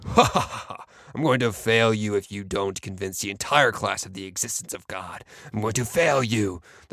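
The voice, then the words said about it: Evil villain voice with mocking laugh. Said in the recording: “in an evil sort of tone ... in an evil voice”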